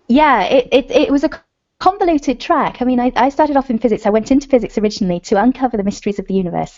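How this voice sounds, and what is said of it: British accent. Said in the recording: “I love your accent. ... I'm from the UK.”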